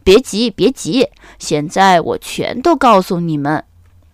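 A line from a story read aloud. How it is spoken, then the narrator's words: Laughing. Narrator (Chinese): 水先生笑着说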